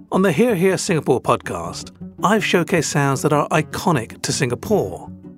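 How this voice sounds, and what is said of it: Rigid British accent. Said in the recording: “my awkwardly rigid British accent”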